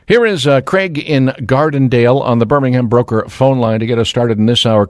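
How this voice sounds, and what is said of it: Smooth, dulcet radio announcer voice. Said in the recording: “that radio voice of yours ... It's so dulcet in its tones”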